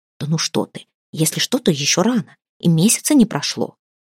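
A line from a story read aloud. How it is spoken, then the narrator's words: Two women whispering. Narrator (Russian): обрывок шепота двух женщин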